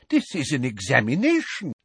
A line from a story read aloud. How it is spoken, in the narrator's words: said Professor Tofty in a scandalized voice